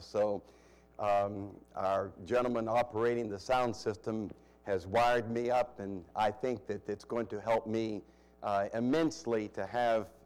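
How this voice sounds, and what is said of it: Voice with audible difficulties. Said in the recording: “You may hear in my voice, I have some difficulties right now.”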